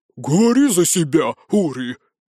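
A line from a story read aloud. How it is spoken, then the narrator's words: Hissing, potbellied man. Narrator (Russian): прошипел пузатый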